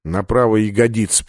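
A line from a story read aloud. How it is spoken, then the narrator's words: Mumble. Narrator (Russian): пробормотал Сандерс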